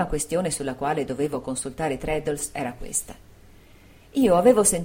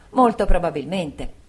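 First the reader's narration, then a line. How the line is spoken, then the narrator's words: Two voices exclaiming together. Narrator (Italian): entrambi esclamammo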